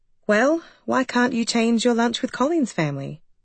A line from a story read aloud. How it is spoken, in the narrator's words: Ellen kept her voice neutral and pleasant